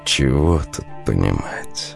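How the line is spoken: Soft reply. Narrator (Russian): мягко отозвался Марк

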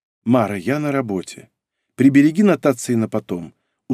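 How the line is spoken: Tired. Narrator (Russian): устало сказала Ольга

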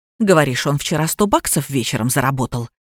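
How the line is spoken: Hissing. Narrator (Russian): шипела Кира

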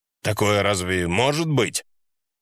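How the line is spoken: Icy tone. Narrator (Russian): фраза отца была сказана таким ледяным тоном

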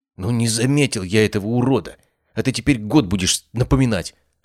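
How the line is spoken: Snapping young man. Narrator (Russian): огрызнулся парень

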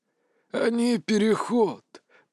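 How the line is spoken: Hoarse wheeze. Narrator (Russian): прохрипел вампир

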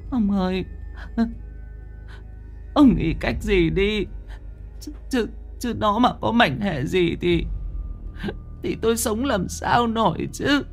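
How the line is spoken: Tearful whimper. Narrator (Vietnamese): Bà Hoài mếu máo

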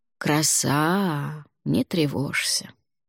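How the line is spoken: Drawl. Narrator (Russian): протянул Алвар

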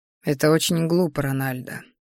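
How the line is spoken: Quiet, breathy, very close. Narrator (Russian): сказал он тихо, пощекотав дыханием мои губы

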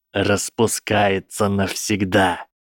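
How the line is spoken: Hissed. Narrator (Russian): прошипел профессор Зельеварения

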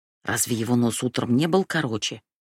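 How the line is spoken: Whispered. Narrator (Russian): прошептала

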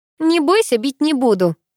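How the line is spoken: Snide, mocking. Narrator (Russian): ехидно улыбнулась Уля

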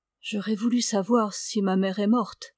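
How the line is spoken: Murmuring. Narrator (French): murmurait-elle

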